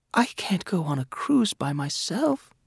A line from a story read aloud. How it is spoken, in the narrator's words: she whispered